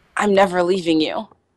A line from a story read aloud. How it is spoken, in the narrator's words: Keely whispers